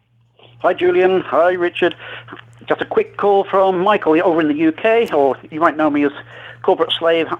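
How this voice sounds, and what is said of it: UK accent. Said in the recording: “I kind of liked his accent.”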